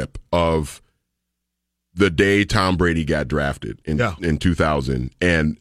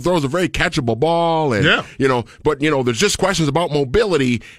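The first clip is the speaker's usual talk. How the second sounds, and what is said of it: Imitates a sports analyst's voice. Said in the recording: “do my best Mel Kiper impression”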